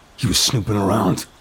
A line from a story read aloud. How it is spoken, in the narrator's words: one of the armed men growls, a hint of amusement in his voice